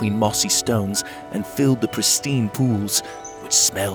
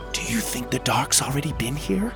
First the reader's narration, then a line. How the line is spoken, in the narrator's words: Winnie whispered